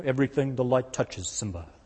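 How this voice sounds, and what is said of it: Lion King character impression. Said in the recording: “my Lion King impersonation.”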